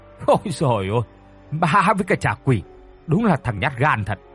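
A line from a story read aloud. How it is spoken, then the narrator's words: Mocking laughter. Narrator (Vietnamese): Tên Hùng cười phá lên mỉa mai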